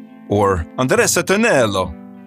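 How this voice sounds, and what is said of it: Bad put-on Italian accent. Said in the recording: “as you can tell by my bad Italian accent.”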